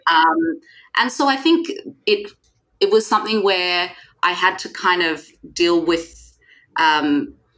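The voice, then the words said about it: Australian accent. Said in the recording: “before you hear my accent, right? ... I'm an Australian brown woman”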